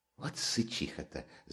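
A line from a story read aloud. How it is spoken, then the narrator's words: Almost cheerful whisper. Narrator (Russian): зашептала тотчас же опять Катерина Ивановна Раскольникову, почти развеселившись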